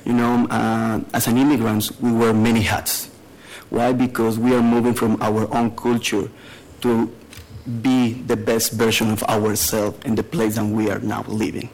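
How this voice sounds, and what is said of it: Mexican Spanish accent. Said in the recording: “I'm originally from Mexico. Maybe you noticed my accent”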